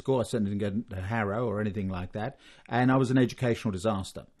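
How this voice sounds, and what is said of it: Slight British accent. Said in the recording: “There are traces in your accent of the UK.”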